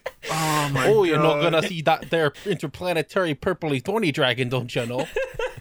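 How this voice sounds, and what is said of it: Put-on Wisconsin accent. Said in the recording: “Blue Eyes Wisconsin accent.”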